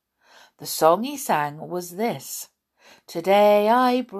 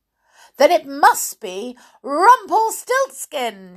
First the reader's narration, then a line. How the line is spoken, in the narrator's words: she cried